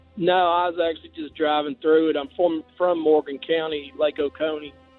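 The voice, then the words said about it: Strong Southern accent. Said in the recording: “Strong out of the box... I've got a pretty good accent... Good accent there, buddy.”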